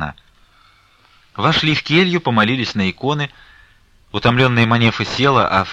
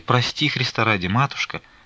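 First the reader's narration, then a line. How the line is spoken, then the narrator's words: Barely audible pleading. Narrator (Russian): Едва слышно оправдывалась она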